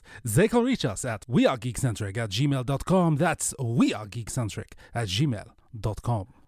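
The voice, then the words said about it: Weak put-on French accent. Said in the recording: “That's probably not my best French accent”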